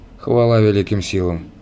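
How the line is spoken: Relieved sigh. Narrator (Russian): произнес крылатый человек и, с облегчением вздохнув

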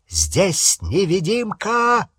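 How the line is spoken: Masked man shouting. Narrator (Russian): закричал пожиратель смерти с закрытым маской лицом

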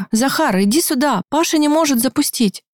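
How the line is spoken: Exclaiming. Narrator (Russian): воскликнула Аня

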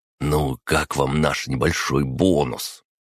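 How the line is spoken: Conspiratorial whisper. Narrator (Russian): хмыкнул, заговорщицки прошептал

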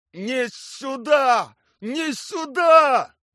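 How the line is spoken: Shouting. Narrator (Russian): кричал Анатолий Николаевич

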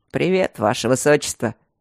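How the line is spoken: Deep low voice. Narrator (Russian): сказал он своим глубоким, низким голосом

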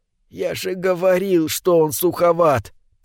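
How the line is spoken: Whisper. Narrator (Russian): прошептал

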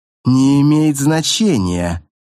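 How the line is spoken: Curt, through clenched teeth. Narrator (Russian): процедил директор

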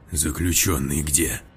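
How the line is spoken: Blurted in angry whisper. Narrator (Russian): Выпалил он злым шепотом

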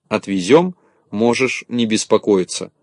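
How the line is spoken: Plain. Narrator (Russian): ответил Незнайка

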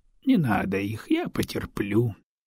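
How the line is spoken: Sighing. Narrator (Russian): вздохнул Адиген

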